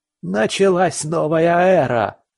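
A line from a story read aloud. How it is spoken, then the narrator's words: Hysterical ecstatic shriek. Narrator (Russian): Истерично взвизгнул псих, забившись в каком-то экстазе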